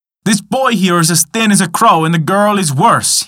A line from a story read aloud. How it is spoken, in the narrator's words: exclaimed